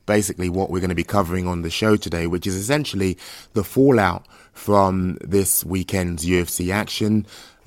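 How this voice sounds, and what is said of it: Unusually deep, husky sick voice. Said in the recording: “you can probably hear um, my voice has taken a tone for the deepness ... I've essentially uh, deepened my voice ever so slightly, a couple of octaves lower ... I am dying right now”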